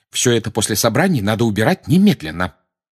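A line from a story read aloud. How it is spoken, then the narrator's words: Sharp. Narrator (Russian): резко сказала она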